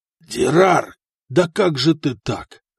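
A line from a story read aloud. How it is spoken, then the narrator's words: Exhaled words. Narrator (Russian): выдохнул Халид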